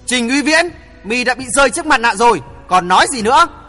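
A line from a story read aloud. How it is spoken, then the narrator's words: Angry loud shout. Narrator (Vietnamese): nổi giận hét lớn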